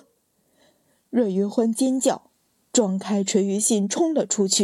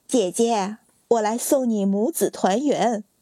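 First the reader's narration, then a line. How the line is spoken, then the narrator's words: Cold sneer. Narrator (Chinese): 女子冷笑道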